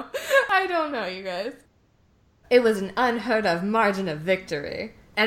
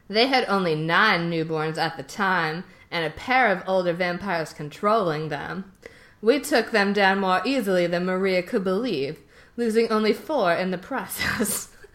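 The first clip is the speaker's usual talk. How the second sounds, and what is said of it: Character voice with an accent. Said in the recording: “what is this accent? ... It's Jasper.”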